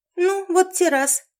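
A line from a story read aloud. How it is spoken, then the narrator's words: Indignant squeak. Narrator (Russian): возмущенно пискнула Лори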